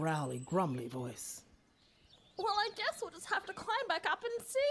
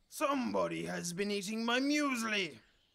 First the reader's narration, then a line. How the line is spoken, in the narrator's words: he bellowed in his big growly voice